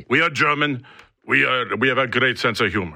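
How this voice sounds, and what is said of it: Put-on German accent. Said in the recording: “That's my best German impression.”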